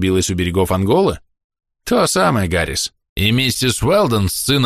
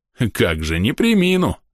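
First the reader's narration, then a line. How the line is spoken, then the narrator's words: Laughing. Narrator (Russian): с хохотом сказал Гаррис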